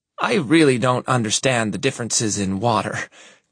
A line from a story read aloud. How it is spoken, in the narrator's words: Courtney murmurs